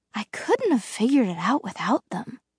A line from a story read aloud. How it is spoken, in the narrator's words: she muttered